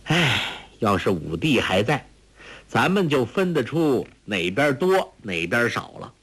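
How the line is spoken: Sighing. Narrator (Chinese): 朱聪叹道

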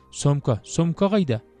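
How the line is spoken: Flustered girl. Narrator (Kazakh): Қыз сасқалақтап

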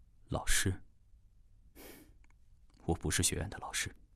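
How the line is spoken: Indifferent, flat. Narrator (Chinese): 大师淡淡地说

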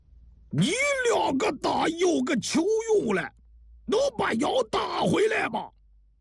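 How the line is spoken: Angry roar. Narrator (Chinese): 王向清怒吼道

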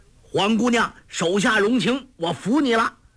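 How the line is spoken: Loud shout. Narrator (Chinese): 简长老高声叫道

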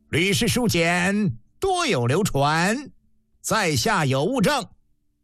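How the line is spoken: Loud. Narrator (Chinese): 相府长史高声道

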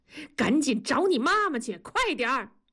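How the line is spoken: Shouting. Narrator (Chinese): 同志呆住，回身冲南方喊

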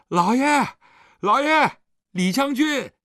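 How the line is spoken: Excited shouting. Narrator (Chinese): 狄春已经兴奋地叫着

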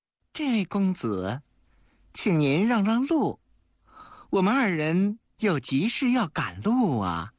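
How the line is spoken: Flirtatious, ingratiating smile. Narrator (Chinese): 浮起了一脸的媚笑

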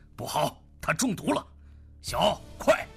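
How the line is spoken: Low growl. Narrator (Chinese): 赵无极低吼一声

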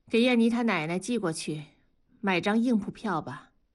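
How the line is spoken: Calm voice. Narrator (Chinese): 声音平静地说

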